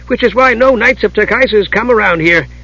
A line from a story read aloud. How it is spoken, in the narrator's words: Tass said cheerfully